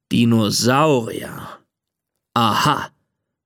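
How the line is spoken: Father growling. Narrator (German): knurrt Papa

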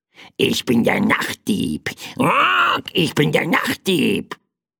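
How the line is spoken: Croaking small bird. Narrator (German): krächzte das kleine Federvieh

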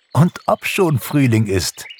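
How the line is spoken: Laughing. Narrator (German): lachte Pixie

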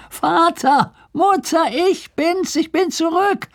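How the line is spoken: Called from afar. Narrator (German): rief er von Weitem

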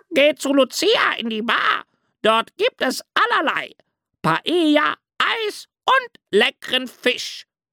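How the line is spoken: Shrieking parrot. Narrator (German): kreischte ein Papagei

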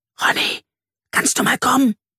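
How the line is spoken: Called as quietly as possible. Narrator (German): Carla rief so leise wie möglich

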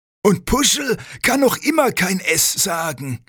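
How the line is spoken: Called out. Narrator (German): ruft Bussibär

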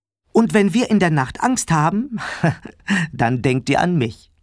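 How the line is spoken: Laughing. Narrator (German): ergänzte Papa lachend

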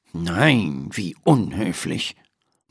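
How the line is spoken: Murmured. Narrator (German): murmelt Dr

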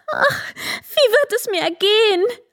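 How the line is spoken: Called out. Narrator (German): rief sie

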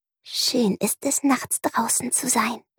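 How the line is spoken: Soft whisper. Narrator (German): Prinzessin Ringelsocke flüsterte leise

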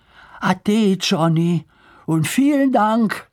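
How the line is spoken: Called out. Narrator (German): rief Lars

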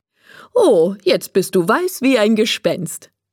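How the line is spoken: Laughing speech. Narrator (German): sagt Frau Mischki und lacht

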